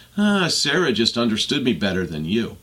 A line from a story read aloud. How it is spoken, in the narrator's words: Chris would sigh and say